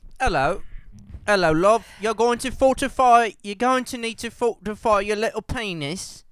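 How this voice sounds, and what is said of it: Poor put-on British accent. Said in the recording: “I still have a terrible British accent”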